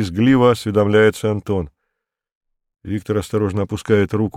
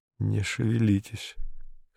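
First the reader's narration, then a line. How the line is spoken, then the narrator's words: Hoarse. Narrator (Russian): хрипло говорит он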